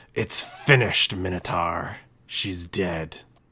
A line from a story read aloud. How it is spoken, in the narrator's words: growl